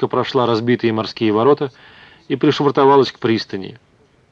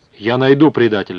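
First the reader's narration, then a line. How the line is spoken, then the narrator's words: Exclaimed. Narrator (Russian): воскликнул Хертуг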